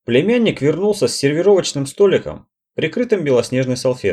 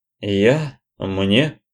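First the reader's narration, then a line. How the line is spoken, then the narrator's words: Mumbling. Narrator (Russian): промямлил племянник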